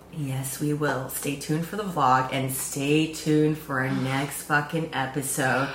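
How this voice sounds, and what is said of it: Strained, worn-out voice. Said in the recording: “my voice is fucked from this weekend”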